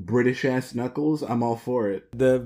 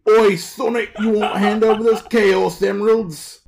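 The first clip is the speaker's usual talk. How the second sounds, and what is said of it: Bad British Idris Elba impression. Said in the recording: “That's a horrible Idris Elba. It's not a good Idris Elba... That's what all British accents sound like, though.”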